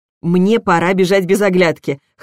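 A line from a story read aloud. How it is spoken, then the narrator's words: Amused snort. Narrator (Russian): хмыкнула я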